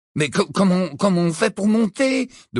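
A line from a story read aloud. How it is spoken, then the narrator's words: Timid. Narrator (French): demanda Ron d'une voix timide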